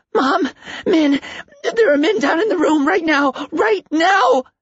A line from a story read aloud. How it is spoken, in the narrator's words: Stephen screamed